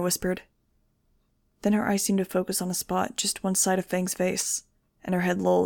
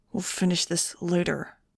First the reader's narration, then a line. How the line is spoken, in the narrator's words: he said through clenched teeth